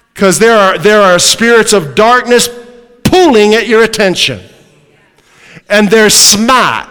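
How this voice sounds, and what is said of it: New England accent. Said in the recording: “That's my New England accent.”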